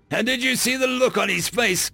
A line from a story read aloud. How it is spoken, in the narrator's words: Cam chuckled